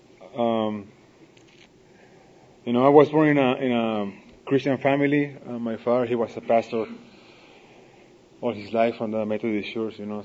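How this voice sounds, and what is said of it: Non-native English accent. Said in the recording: “I live in Tijuana, so bear with me with the accent”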